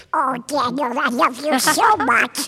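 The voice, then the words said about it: Squawky duck character voice. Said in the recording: “doing that squawky duck voice”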